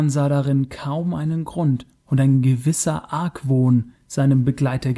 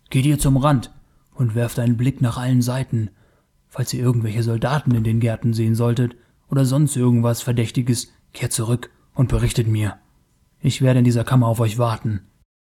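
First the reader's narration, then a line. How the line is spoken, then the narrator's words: Hissed. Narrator (German): zischte Taurus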